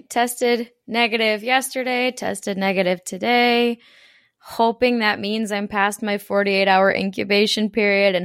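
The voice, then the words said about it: Hoarse, nearly lost voice. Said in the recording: “I yelled a lot, and so that's why my voice is gone. I'm a loud yeller and celebrator, so there goes my voice.”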